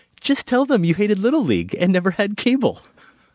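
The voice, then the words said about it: Vaguely British feminine put-on voice. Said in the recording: “my standard vaguely kind of British feminine ... Who can't speak with a Russian accent at all”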